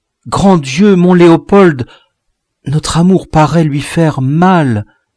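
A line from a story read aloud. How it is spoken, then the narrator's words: Exclaimed. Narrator (French): Marie s'écria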